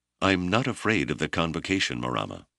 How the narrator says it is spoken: he said firmly

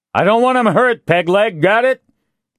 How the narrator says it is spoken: Castillo shouted

